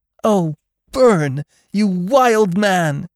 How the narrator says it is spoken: She exclaimed

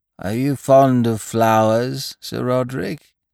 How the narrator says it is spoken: croaked

